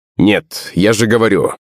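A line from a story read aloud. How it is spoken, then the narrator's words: Sharp answer. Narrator (Russian): резко ответила она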